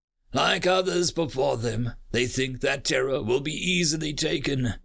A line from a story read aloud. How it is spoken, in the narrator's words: sneered